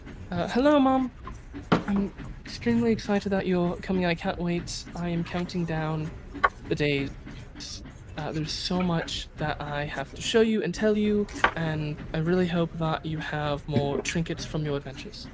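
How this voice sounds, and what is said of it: Posh, noble child character voice. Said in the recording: “I'm trying to do a kid accent ... It's like a kind of posh, noble accent”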